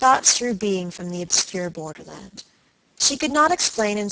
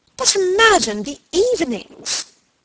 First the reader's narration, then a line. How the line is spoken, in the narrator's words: exclaimed her aunt